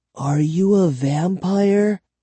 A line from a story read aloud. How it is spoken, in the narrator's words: I asked softly